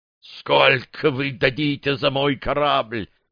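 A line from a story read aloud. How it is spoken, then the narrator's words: Hoarse wheeze. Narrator (Russian): просипел Грасс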